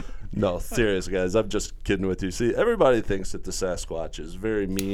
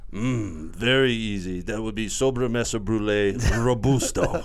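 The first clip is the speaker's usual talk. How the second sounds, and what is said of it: Put-on joke accent. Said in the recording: “Oh, he has an accent. ... Oh, so the accent was just a joke. ... Very well-spoken all of a sudden.”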